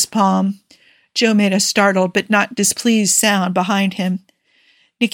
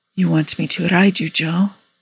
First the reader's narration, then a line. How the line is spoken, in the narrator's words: He said quietly